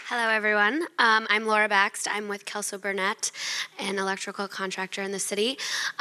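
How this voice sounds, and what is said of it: Congested, sinus-affected voice. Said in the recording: “I apologize for my voice. I have some sinus issues this week.”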